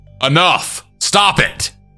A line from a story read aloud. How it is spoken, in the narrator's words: Martin then shouted